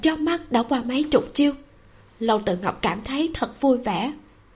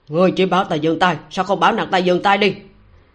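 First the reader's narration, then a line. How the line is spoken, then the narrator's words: Angry shout. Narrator (Vietnamese): Ngô Tới Tửu càng tức giận quát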